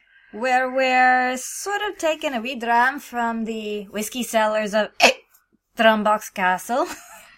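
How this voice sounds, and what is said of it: Put-on Scottish-style accent. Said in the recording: “You're going to have to forgive my accent, it's borrowed from a shop.”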